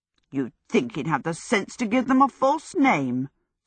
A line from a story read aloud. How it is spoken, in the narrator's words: Sophie said scornfully